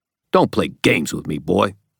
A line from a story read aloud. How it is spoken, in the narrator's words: the old man spat